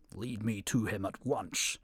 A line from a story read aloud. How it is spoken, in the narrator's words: growled the angry lion